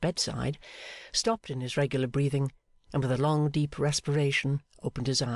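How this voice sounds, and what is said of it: Usual voice. Nothing is said of it.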